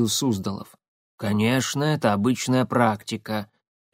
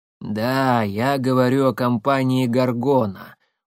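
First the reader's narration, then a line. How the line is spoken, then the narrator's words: Tired. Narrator (Russian): устало Коинов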